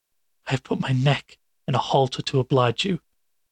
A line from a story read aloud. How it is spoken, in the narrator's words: began Fetz, still somewhat hoarsely